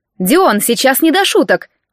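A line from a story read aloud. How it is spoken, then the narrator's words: Offended reply. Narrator (Russian): обиженно отозвалась подруга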